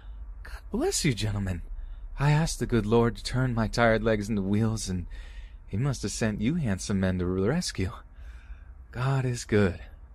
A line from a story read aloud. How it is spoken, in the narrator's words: in an excited tone, she squeals with this almost adorable but sinister grin on her face and says